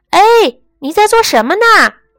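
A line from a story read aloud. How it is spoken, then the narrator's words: Calling upward. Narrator (Chinese): 他不是对着大路，而是朝着上面说话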